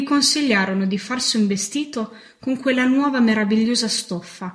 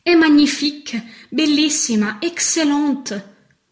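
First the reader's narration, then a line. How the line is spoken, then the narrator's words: Exclaimed to each other. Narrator (Italian): esclamarono l'uno con l'altro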